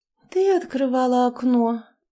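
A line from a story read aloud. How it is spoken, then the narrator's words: Sleepy girl asking. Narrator (Russian): сонно спросила девушка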